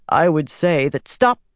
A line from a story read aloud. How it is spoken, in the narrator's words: Swan snapped